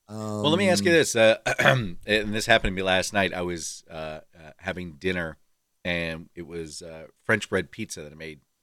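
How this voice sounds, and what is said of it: Scratchy, hoarse voice. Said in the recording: “I lost my voice for 30 minutes. As a matter of fact, it's still scratched up”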